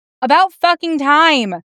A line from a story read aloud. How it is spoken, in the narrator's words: he yells down